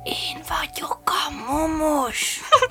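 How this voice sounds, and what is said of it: Whispering voice. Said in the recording (Hungarian): “suttogóra fogta”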